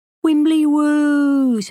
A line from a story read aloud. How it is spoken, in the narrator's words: Minnie was wailing